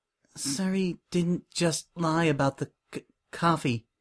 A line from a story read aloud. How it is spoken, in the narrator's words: Coco stammered